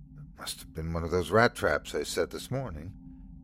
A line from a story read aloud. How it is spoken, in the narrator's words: she whispered to the dog